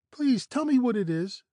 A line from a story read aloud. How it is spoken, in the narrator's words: begged his granddaughter